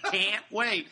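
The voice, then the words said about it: Put-on Chicago accent. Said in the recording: “he said in his best Chicago accent”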